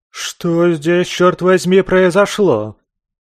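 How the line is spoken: Angry bark. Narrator (Russian): Зло рявкнула

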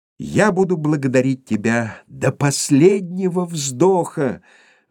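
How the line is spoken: Exclaiming. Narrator (Russian): воскликнул Скрудж

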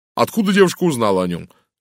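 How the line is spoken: Sharp question, doctor. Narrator (Russian): резко спросил врач

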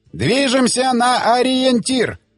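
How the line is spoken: Shouted command. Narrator (Russian): крикнул Рафин Е

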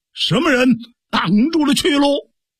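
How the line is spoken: Loud shout. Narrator (Chinese): 有人高声叫喊

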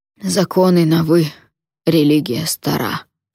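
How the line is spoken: Hoarse. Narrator (Russian): сипло сказал он

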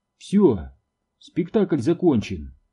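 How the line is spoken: Calm. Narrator (Russian): спокойно сказала она

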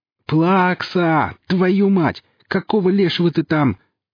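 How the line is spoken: Yelling across workshop. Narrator (Russian): заорал варежка на весь цех

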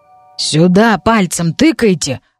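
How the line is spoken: Growling goblin. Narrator (Russian): рыкнул наш гоблин

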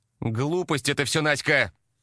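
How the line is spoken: Angry dismissive retort. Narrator (Russian): Зло отмахнулась Елена

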